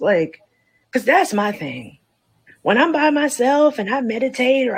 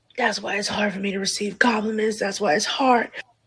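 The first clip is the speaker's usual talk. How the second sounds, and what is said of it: Raspy smoker-like voice. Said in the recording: “doing the smoker voice at the end? Or was she trying to stop from crying?”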